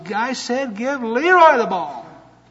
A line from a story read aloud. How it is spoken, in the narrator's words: Finally yelled at the top of his lungs